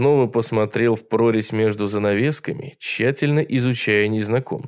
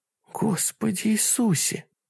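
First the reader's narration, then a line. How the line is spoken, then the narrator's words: Whisper. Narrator (Russian): прошептала Пэм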